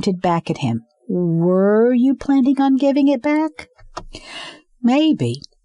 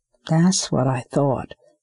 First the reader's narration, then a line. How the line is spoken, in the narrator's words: she muttered